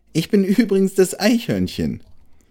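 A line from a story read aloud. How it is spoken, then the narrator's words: Giggling small animal. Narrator (German): antwortete der Nager und fügte kichernd hinzu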